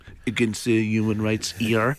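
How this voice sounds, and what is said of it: Put-on French accent. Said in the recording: “Is that a good French accent? ... That was good, actually,”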